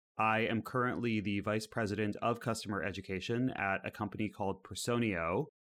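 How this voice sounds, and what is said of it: American accent. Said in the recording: “as you can hear by my accent, I'm still a baby European. I'm out here recently from the Bay Area in the United States.”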